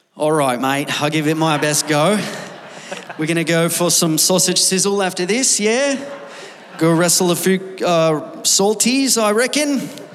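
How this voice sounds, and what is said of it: Put-on Australian accent, fairly good. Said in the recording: “Give us the Australian accent. You're pretty good at it. ... He did pretty good.”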